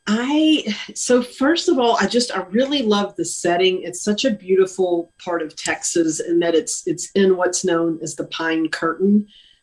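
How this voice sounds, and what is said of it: East Texas accent. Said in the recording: “you're a native of East Texas ... you can hear ... my accent has never left me”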